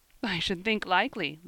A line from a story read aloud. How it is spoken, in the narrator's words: laughed Ben